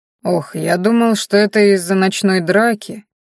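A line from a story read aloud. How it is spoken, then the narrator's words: Confused muttering. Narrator (Russian): растерянно пробормотал лекарь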